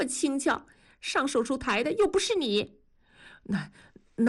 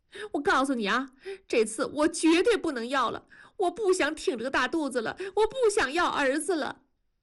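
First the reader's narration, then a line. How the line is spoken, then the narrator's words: Crying. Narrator (Chinese): 文丽哭着说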